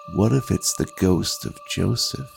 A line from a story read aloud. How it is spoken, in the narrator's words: another voice, the one that whispers to you in the dead of night, replies